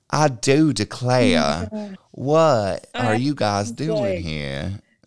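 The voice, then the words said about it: Over-the-top exaggerated accent. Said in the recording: “All the accents are over the top, way over the top. ... it's so over the top, her accent.”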